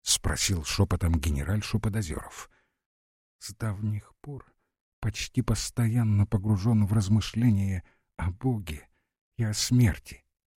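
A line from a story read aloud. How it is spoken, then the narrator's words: Barely audible answer. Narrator (Russian): отвечала едва слышно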